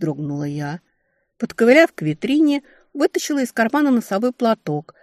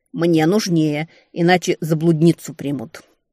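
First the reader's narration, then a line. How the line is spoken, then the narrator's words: Through gritted teeth. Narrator (Russian): процедил я сквозь зубы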